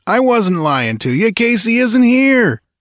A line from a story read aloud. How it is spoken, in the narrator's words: he jeered